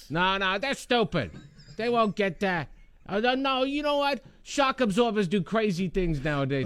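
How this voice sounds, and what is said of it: Put-on New York accent. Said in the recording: “Regina construction workers have New York accents.”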